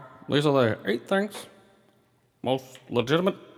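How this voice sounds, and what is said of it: Usual voice. Nothing is said of it.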